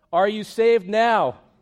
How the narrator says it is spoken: called out

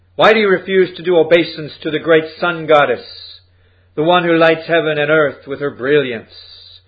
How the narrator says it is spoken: shouted the chief

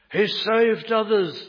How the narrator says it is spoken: they shouted

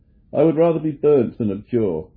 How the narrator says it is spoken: suddenly his courage revived, and he exclaimed

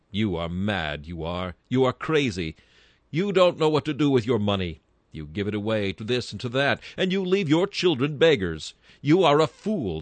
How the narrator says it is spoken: said she

